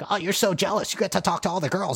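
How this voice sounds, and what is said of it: Put-on cartoon character voice. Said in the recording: “Quite the voice. ... That's my impression.”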